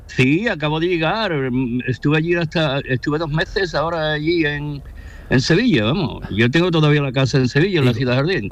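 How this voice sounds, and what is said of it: Sevillian Spanish accent with American tinge. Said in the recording (Spanish): “Tiene el acento, entre bueno, sevillano sí, sí, americano.”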